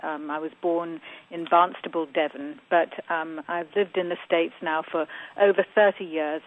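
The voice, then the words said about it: Southwest English accent. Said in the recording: “your voice sounds slightly different than your husband ... I'm from the southwest part of England”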